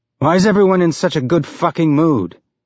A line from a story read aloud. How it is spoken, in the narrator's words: Miller said, more sharply than he'd intended